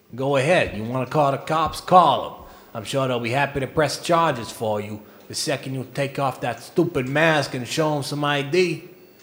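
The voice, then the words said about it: Puts on a sleazy character accent. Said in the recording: “That was a great accent... That's very good. You've been working on that, I can tell.”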